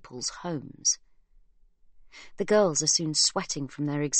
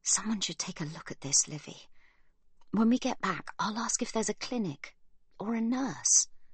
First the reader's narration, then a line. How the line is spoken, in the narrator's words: Sibby whispers